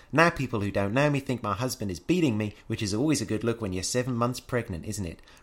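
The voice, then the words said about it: Poor put-on New Zealand accent. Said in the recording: “I get to practice my accent again ... accent's not getting better ... Apparently New Zealand is not one I can do.”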